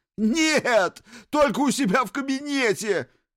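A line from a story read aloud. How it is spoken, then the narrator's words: Miserable wail. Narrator (Russian): взвыл несчастный Сиверс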